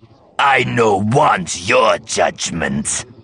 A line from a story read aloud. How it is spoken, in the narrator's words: he snarled